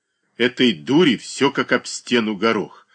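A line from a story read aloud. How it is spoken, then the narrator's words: Spiteful. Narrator (Russian): злобно проговорила она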